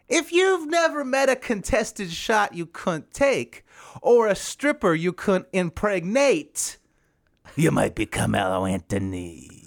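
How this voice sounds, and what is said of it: New York-flavored comedian impression. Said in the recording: “Is that New York Foxworthy? ... It's my impression.”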